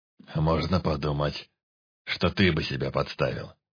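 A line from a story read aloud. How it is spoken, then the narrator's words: Snort. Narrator (Russian): хмыкнул Полтораж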